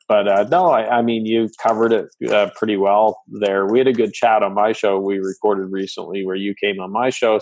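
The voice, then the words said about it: Slight Canadian accent. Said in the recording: “I'm Canadian, so pardon the accent ... your accent ... I don't think I'm going to say A or a boot too much today ... a little bit of the Canadian accent”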